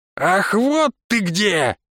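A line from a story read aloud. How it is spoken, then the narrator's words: Woman's shrill shriek. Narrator (Russian): взвизгнул женский голос за спиной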